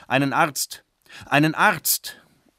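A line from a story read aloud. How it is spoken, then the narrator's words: Old man calling repeatedly. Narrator (German): ein alter Mann rief pausenlos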